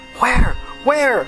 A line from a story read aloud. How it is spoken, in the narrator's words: clamored excitedly